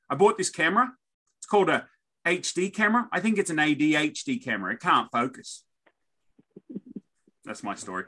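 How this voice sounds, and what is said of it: Australian accent. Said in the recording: “as an Aussie accent”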